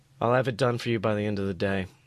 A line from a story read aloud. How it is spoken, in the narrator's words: he replied softly